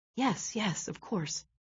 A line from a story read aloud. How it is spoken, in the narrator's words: he whispered